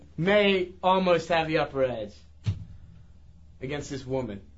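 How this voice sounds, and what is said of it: Usual voice. Nothing is said of it.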